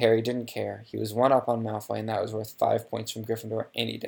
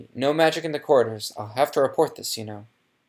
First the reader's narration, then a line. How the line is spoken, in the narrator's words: said Percy loudly